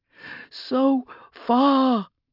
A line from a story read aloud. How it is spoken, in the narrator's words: moaned the chorus of pain